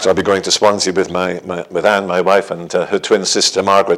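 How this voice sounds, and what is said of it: Welsh accent. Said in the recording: “I'm Welsh for my accent ... You think this is Welsh”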